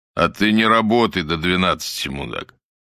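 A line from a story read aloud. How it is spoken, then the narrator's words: Deep bass voice. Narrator (Russian): пробасил Двоетесов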